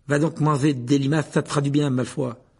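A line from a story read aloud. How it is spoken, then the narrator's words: Furious. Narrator (French): dit Ron d'un ton furieux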